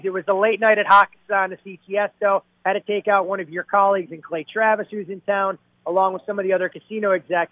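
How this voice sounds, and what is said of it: Hoarse, worn-out voice. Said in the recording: “Starting to sound a little bit like a young Joe Pesci ... The voice isn't raspy from yelling at the TVs ... my voice went right along with it”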